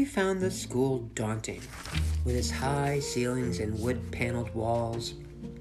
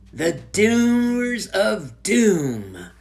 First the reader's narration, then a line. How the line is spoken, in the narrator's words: said Jimmy dramatically